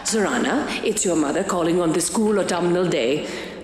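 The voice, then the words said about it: Imperious, laughing voice, vampire-like accent. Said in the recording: “it's a funny voice because I give her a kind of imperiousness. And also she sort of laughs when she talks as if the whole world makes her sort of incredulous ... a little soupçon of Transylvanian vampire”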